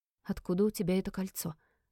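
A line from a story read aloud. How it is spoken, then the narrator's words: Trembling whisper. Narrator (Russian): спросила она шепотом, и ее голос дрогнул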